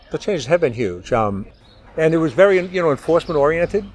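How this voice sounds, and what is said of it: Slight Boston accent. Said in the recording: “By the sounds of your accent, you grew up in that area ... from the Boston area ... Just a little bit”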